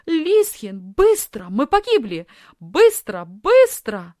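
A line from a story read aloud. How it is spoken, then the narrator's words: Shouting. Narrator (Russian): закричала Софи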